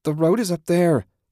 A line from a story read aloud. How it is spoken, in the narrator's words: Julie shouted